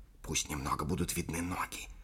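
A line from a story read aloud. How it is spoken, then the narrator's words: Castaway woman's whisper. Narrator (Russian): шептала потерпевшая кораблекрушение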